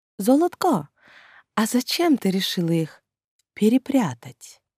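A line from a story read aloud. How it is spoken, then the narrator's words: Forced tenderness, older man. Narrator (Russian): натянуто ласково уточнил старший вампир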